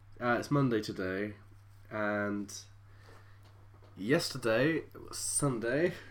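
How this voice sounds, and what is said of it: Slow, tired-sounding speech. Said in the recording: “I'm so tired... I'm talking so slow.”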